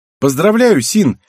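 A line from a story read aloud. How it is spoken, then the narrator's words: Loud declaration. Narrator (Russian): выдала Мизуки громко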